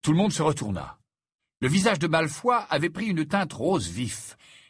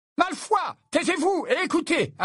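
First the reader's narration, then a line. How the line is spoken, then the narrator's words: Sharp barking. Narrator (French): aboya le professeur McGonagall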